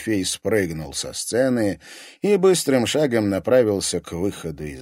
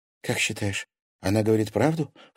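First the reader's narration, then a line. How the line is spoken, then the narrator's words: Low-voiced question. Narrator (Russian): вполголоса спросила Лиза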